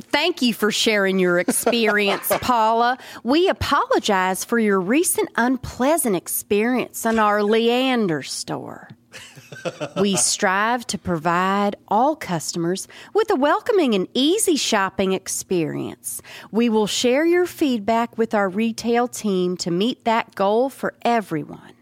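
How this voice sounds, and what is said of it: Put-on Southern girl accent. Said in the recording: “Can you do an accent for a thrift store? ... Southern ... Girl.”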